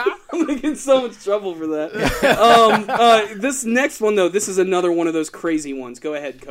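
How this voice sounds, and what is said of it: Usual voice. Nothing is said of it.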